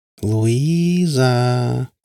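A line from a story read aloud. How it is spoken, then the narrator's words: Drawn out. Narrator (Russian): протянула она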